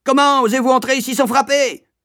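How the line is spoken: Supervisor yelling. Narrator (French): hurla la surveillante

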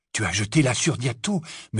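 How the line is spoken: Whispered. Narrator (French): murmura-t-il à Hermione

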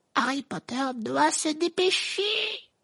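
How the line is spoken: Squeak. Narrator (French): couina Dobby

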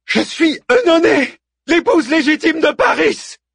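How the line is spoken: Screaming, drowned by wind. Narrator (French): hurla la dénommée Œnone, dont la voix était presque étouffée par la furie du vent et la vigueur des flammes

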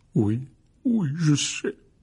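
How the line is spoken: Broken voice. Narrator (French): dit Hagrid d'une voix brisée

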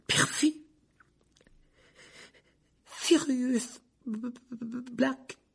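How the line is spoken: Weak voice. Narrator (French): dit Ron d'une voix faible

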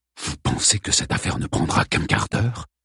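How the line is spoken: Indignant hushed voice. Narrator (French): s'indigna James à voix basse pour ne pas être entendu du cocher

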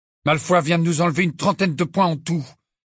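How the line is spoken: Furious. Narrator (French): dit Harry d'un ton furieux

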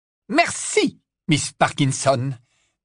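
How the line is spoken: Sharp, curt. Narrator (French): dit le professeur McGonagall d'un ton cassant

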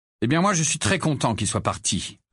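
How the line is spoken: Cold retort. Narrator (French): répliqua froidement Harry

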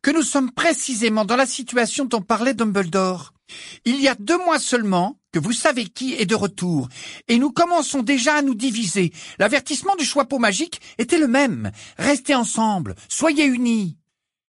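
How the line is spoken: Loud voice. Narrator (French): poursuivit Hermione d'une voix forte

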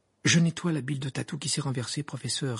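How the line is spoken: Innocent tone. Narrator (French): répondit Harry d'un ton innocent

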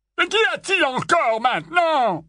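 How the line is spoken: Barked by an uncle. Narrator (French): aboya l'oncle Vernon

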